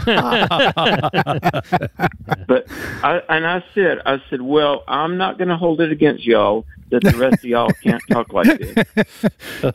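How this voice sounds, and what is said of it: Southern American accent. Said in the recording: “frequently they will comment that I have a Southern accent ... you have a Southern accent”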